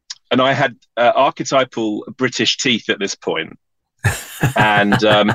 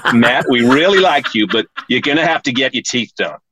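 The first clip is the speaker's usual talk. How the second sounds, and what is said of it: Put-on American accent. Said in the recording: “That's my American accent.”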